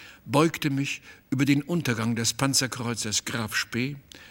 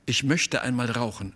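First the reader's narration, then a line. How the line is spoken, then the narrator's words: Plain. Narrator (German): sagte sie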